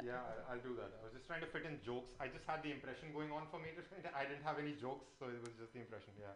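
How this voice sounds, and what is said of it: Strong, hard-to-follow accent. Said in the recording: “accent's a little hard, but I like your accent”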